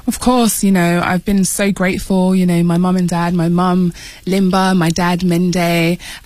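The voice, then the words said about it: British accent. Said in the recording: “you might be able to tell from Miatta's accent that you grew up in the UK. It's great to have another Brit”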